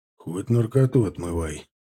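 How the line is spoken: Grumbling mutter. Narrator (Russian): буркнул Женя

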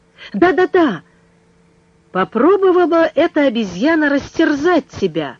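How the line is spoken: Threatening exclamation. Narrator (Russian): с угрозой воскликнул Пенкроф

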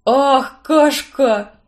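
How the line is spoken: Happy sigh. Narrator (Russian): Счастливо вздохнул запах овсянки Барнс

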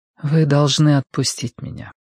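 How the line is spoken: Soft. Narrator (Russian): мягко сказала Цзянь

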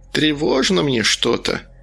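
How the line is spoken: Wanderer's mutter. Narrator (Russian): пробормотала странница

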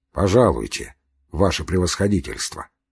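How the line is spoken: Plain. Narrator (Russian): сказал он ей

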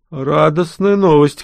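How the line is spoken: Snorting. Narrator (Russian): хмыкнул Загиял

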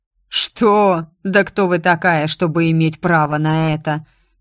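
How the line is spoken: Mocking drawl. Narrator (Russian): насмешливо протянул барон

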